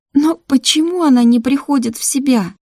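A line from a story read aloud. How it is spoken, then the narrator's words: Trembling voice. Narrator (Russian): дрожащим голосом произнесла Мира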